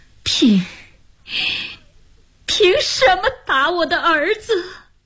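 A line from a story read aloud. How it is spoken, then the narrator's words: Disappointed crying wail. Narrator (Chinese): 哭喊着 失望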